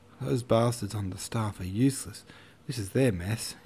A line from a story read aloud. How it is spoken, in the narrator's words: he muttered